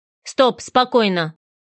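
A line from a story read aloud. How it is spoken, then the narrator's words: Sharp, confident command. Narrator (Russian): Резко сказал он, и в его тоне прозвучала сила и уверенность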